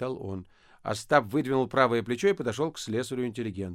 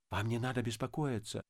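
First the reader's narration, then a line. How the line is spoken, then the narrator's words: Whispering. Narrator (Russian): зашептал Полисов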